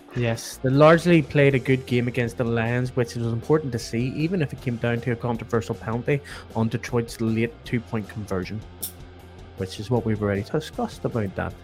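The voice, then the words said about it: Slight put-on accent while reading. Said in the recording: “What was the slight accent you put on there? ... That was my my accent I put on so that I could say words properly.”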